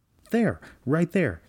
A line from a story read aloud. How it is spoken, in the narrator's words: he exclaimed